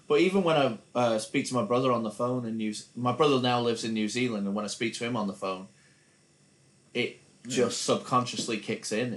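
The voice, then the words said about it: Mild transatlantic American-English accent. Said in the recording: “What's that American accent there? ... hence his American accent. ... It's a transatlantic accent, yeah. But it's died off a little bit.”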